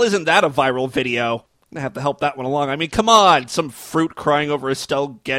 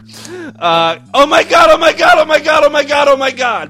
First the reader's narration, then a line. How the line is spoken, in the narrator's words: Blanche screamed with ecstasy